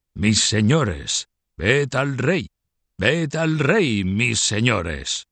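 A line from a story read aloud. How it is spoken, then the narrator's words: Deep, clear after throat-clearing. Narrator (Spanish): El señor de Joinville, tras aclararse la garganta con algunos carraspeos, se decidió a pronunciar con voz grave y bastante clara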